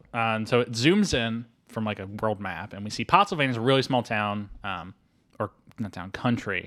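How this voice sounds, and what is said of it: Usual voice. Nothing is said of it.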